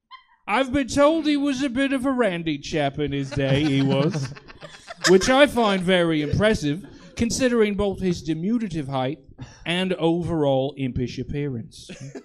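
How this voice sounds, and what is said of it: Put-on accent, claimed as flawless. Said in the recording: “As you could tell by my flawless accent, I know a thing or two about royalty”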